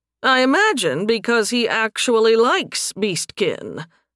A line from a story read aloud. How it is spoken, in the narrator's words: Leopold said dryly